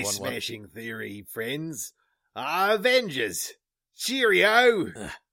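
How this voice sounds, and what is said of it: Put-on Australian accent. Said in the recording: “I was going for an Australian accent”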